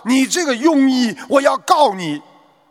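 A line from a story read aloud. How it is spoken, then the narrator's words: Sudden furious roar. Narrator (Chinese): 病人的丈夫突然怒吼道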